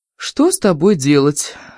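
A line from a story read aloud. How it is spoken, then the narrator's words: Weary, burdened sigh. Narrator (Russian): вздохнула Дорси, как будто отягощенная ответственностью за всю Британскую империю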